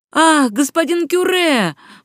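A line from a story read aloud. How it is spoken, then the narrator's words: Exclaimed. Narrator (Russian): воскликнул он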